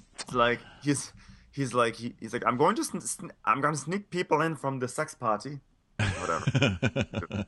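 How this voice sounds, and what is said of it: Faltering imitation of Isabella's accent. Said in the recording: “I'm just mad that my Isabella accent faltered me on the podcast.”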